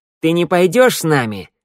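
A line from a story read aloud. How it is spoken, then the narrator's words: Barking shout. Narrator (Russian): рявкнула Шныряла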